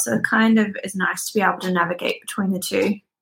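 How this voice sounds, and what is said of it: Australian accent, not Belfast. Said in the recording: “that's not a Belfast accent ... I am from Australia”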